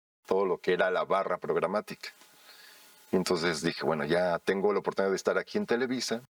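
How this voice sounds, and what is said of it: Usual voice. Nothing is said of it.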